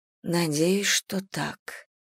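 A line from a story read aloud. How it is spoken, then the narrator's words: Whisper. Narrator (Russian): прошептала я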